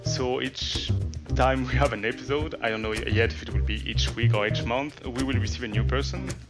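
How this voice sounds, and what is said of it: Strong French accent. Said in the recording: “I'm French, as you can hear. I have a strong French accent.”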